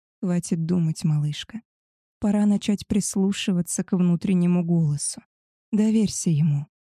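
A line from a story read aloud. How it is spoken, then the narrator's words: Whispered. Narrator (Russian): прошептал он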